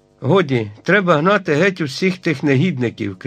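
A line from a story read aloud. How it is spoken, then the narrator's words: Shouted. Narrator (Ukrainian): крикнув Пенкроф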